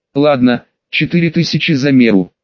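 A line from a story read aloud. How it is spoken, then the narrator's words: Sighing. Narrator (Russian): вздохнул барон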